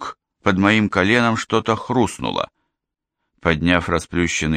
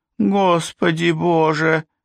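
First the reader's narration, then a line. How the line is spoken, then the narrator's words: Sobbing. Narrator (Russian): рыдал Майкл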